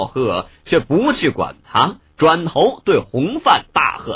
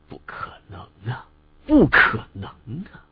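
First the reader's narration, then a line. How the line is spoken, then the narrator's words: Murmuring. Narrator (Chinese): 喃喃道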